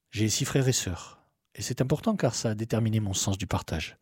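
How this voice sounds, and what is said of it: Light southern French accent. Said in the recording (French): “Je suis un gazier du Sud, né au siècle dernier, ailleurs dans le Var ... D'où un petit accent plein de cigales.”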